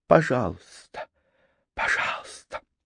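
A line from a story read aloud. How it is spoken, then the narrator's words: Pleading whisper. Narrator (Russian): зашептала, умоляя его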